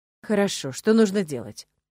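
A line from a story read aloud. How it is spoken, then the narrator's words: Sighing. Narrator (Russian): Вздохнул Монт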